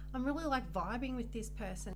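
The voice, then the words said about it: Australian accent. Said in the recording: “Why do you say it with such an Aussie accent?”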